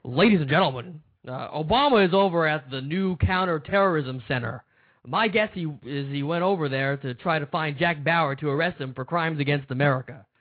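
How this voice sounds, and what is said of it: Rush Limbaugh impression. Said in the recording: “my best Rush Limbaugh impersonation”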